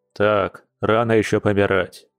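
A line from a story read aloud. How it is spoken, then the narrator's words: Stern. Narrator (Russian): строго произнес Дима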